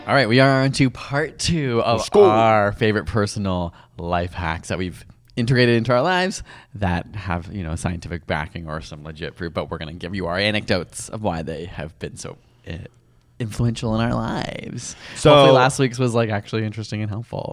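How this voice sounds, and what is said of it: Radio announcer voice. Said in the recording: “announcer voice ... you could work at Mix 99.9 in Toronto FM”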